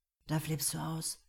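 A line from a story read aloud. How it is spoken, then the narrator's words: Murmured. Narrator (German): murmelt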